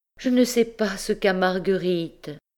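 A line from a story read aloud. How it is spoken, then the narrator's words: Sighing. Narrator (French): soupirait Madame Lecotel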